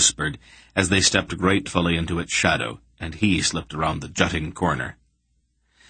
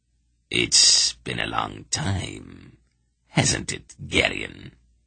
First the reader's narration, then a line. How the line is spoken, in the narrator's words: Brill said quietly, with an ugly chuckle